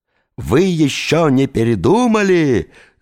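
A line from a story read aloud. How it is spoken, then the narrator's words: Yelling. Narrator (Russian): завопил лицедей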